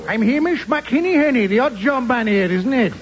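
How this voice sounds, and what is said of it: Put-on Welsh accent, failed Scottish. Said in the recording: “That's a Welsh accent, is it not? ... I can't do Scottish.”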